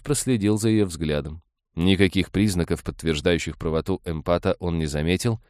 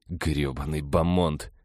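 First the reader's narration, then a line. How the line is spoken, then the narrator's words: Quiet cursing. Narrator (Russian): тихо ругнулся он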